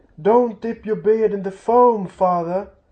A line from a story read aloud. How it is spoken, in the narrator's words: they cried to Thorin